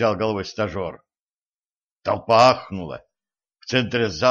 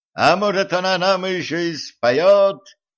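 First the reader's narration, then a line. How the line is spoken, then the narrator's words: King's excited shout. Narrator (Russian): азартно крикнул король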